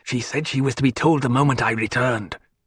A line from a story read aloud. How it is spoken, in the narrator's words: Someone else whispered